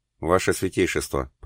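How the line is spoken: Mumbled. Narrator (Russian): пробормотал Роберто Кальве

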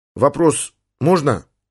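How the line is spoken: Timid question. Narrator (Russian): робко спросил Коля

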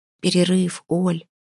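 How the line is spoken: Whisper. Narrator (Russian): шепнула Вася

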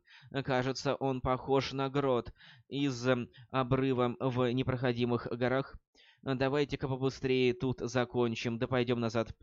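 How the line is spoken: Frightened pleading. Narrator (Russian): испуганным голосом попросила Люси

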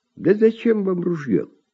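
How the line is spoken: Sad sigh. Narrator (Russian): вздыхает Семен, печально

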